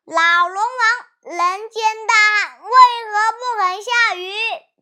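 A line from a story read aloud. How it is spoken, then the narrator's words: Shouting. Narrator (Chinese): 哪吒喊道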